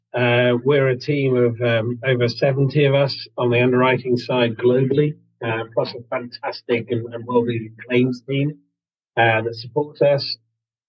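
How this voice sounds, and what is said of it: London English accent. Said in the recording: “You may understand from my accent that I'm here in London”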